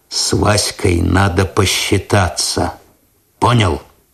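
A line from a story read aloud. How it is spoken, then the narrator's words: Quiet. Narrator (Russian): Косой тихо сказал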